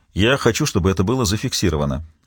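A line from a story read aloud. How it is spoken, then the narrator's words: Sharp. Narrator (Russian): резко произнес бывший судья Рикард Франсен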